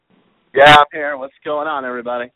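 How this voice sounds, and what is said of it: Excited, energetic greeting. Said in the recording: “You sound excited.”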